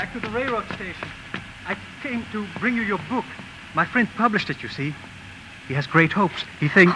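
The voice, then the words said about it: Man speaking with a foreign accent. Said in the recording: “a man with sort of an accent”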